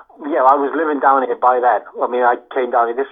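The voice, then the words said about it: Scouse accent mixed with Welsh valleys. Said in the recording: “I got this bloody Scouse accent mixed with the valleys ... You've got a proper bastardised accent there.”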